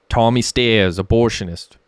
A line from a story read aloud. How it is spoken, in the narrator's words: joked Messi in a thick Brooklyn accent